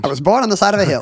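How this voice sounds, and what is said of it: Mid-Atlantic accent. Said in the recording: “talking with a mid-Atlantic accent ... keep speaking in mid-Atlantic”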